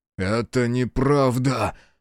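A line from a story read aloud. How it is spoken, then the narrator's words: Hoarse rasp. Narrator (Russian): прохрипел Биру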